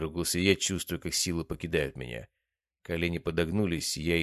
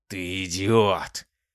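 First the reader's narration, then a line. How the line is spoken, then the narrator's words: Growled, hoarse from disuse. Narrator (Russian): прорычал он, и его голос был обычным человеческим, хриплым от неиспользования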